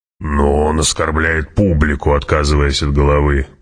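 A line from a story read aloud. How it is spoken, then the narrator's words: Grumble. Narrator (Russian): проворчал барон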